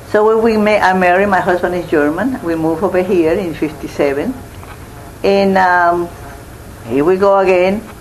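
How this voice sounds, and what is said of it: Speaks English with a foreign accent. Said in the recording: “I got the accent. And I feel I was laid out because my accent.”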